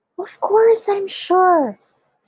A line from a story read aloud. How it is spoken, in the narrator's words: spluttered the old man excitedly